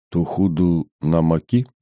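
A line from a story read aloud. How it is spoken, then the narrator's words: Barely audible question. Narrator (Russian): чуть слышно спросил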